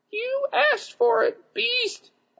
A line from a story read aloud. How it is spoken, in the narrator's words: I squeaked